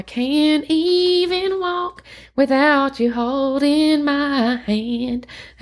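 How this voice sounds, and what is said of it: Sung in a bad country accent. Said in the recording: “I had to sing that in my best country accent. That was probably really bad.”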